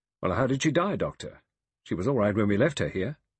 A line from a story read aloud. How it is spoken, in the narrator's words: Lombard said impatiently